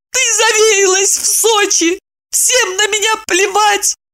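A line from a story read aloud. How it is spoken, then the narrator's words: Wailing scream. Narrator (Russian): Продолжила Ева и завопила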